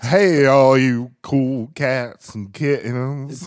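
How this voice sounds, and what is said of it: Carole Baskin impression, Southern twang. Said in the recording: “with a familiar Southern twang”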